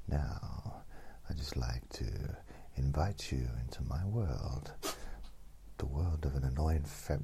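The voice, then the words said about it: Very calm radio voice. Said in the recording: “very, like, really... really calm, really calm radio voice”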